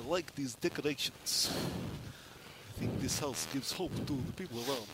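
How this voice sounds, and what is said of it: Quiet put-on Russian accent. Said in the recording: “talking quietly in my Russian accent”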